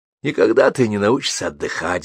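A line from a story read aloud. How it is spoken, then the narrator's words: Sighing. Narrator (Russian): вздохнул Орлов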